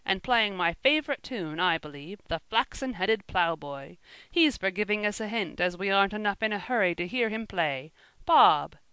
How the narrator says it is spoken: called out

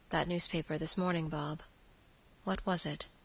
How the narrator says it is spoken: in a hesitating manner, said quietly

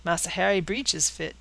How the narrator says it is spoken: said Caesar, with a chuckle that exhibited a mouth open from ear to ear

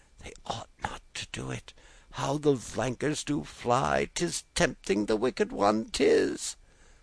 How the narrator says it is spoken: Christian ... uneasily ... murmured

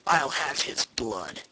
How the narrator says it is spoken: muttered the leader

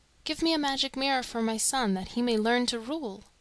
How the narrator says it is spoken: Though her heart was sick with dread, she answered boldly in a firm, clear voice

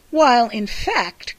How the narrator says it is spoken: cried his sister

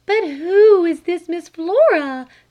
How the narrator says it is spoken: cried her mother

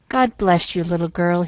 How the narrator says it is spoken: he said unsteadily

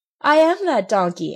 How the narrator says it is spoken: answered the marionette, laughing

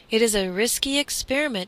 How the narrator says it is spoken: exclaimed the cook

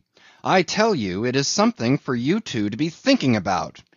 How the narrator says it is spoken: he cried

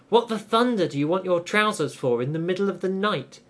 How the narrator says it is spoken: he asked indignantly

